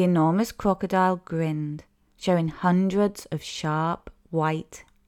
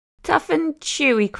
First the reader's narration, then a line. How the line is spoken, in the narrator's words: cried the enormous crocodile